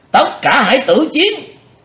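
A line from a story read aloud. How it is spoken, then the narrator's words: Fierce battle shout. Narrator (Vietnamese): tiếng quát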